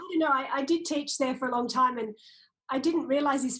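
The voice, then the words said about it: Australian accent. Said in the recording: “someone who has an accent similar to mine ... buffed off the corners of your accent”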